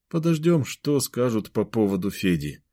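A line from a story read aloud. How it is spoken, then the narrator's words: Dejected voice. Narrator (Russian): упавшим голосом проговорил Кирилл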